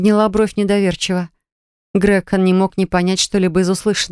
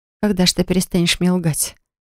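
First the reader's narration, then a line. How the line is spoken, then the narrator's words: Sighing. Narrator (Russian): Вздохнула я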